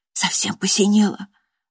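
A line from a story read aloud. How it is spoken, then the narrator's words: Women whispering. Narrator (Russian): зашептались женщины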